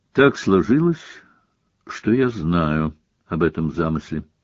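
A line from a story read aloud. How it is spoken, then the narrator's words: Quiet. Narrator (Russian): сказал он тихо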